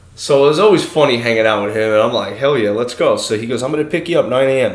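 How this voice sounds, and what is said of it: Usual voice. Nothing is said of it.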